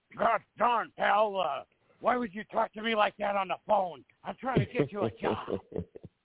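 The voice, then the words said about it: Imitates another person's voice. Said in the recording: “Good imitation of him... did a good impression of him.”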